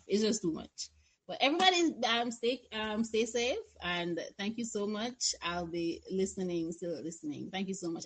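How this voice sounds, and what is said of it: Speaks with a noticeable accent. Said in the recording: “I love her accent.”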